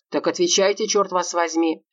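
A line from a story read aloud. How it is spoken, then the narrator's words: Barking. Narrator (Russian): рявкнул он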